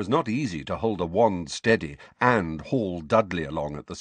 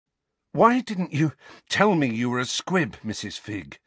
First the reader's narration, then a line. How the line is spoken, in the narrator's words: asked Harry, panting with the effort to keep walking